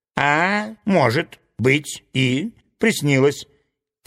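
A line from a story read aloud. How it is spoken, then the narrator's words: Snide. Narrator (Russian): ехидно заметил доктор Рабиль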